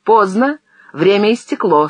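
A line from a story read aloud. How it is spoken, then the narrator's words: Stern. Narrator (Russian): строго сказал Зенин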